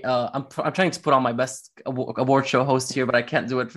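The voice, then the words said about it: Strained, hoarse voice. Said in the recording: “lost my voice ... very hard on my voice.”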